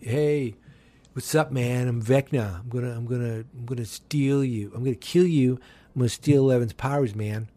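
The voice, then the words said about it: Laid-back California dude voice. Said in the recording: “my impersonation of a California demon”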